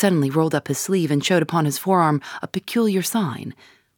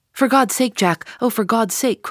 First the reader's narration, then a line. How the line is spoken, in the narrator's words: cried poor, distracted Eddie